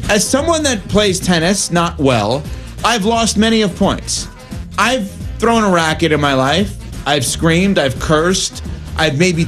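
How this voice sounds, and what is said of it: New York accent. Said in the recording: “I can't say it, I have a New York accent with that.”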